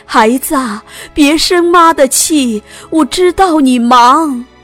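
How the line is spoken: Shouting while running. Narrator (Chinese): 边追着车跑边喊

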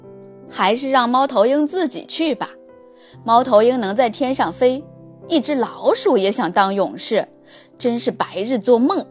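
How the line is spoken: Hedgehog, dry cough first. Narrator (Chinese): 一只刺猬干咳了两声，说

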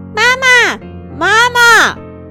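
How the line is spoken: Children shouting. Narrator (Chinese): 姐弟俩一边喊

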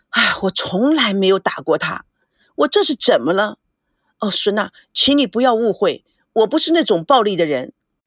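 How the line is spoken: Sighing, lamenting. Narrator (Chinese): 赵维康唉声叹气

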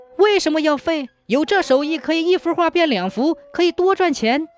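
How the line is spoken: Exclaiming question. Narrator (Chinese): 李崇叫起来问

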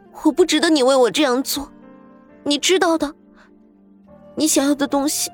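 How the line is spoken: Crying. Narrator (Chinese): 刘子诺摇着头，哭着说道

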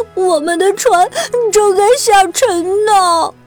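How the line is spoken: Sobbing child. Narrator (Chinese): 文森特紧紧抓住爸爸的裤腿儿，他抽泣着

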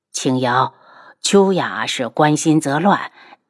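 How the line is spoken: Sighing. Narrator (Chinese): 他叹了口气道

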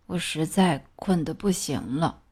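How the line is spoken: Sleepy mumbling. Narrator (Chinese): 大熊嘟囔着

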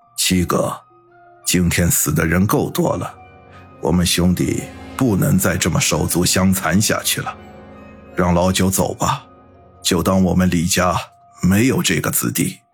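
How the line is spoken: Deep grave voice. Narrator (Chinese): 八爷 沉声的说道

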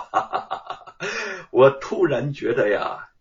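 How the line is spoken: Laughing. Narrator (Chinese): 吴承恩边笑边说

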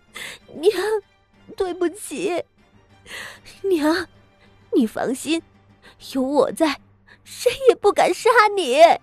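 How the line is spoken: Sobbing bitterly. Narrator (Chinese): 傅苗仪 痛哭道

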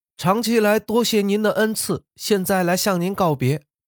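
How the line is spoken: Loud voice from outside. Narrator (Chinese): 墙外大声说

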